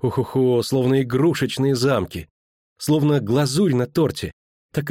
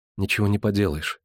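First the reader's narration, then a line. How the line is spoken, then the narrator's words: Quiet. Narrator (Russian): тихо сказала Цири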